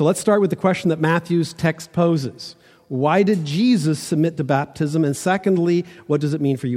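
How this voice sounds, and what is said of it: Usual voice. Nothing is said of it.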